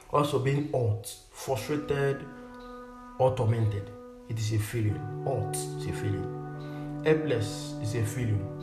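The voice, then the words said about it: Strong non-native English accent. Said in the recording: “my accent... It might be difficult for you to get this pronunciation”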